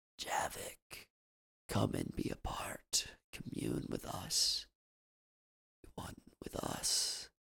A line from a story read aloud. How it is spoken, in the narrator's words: A voice whispered into his mind